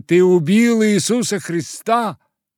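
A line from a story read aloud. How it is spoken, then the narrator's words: Boys shouting. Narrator (Russian): мальчишки кричали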